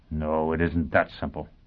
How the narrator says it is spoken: Foyle said grimly

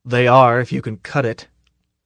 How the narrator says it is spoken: the fleet sergeant said grimly

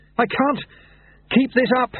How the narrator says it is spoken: he panted, running after Lutse

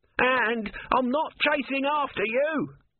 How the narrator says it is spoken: Om screamed

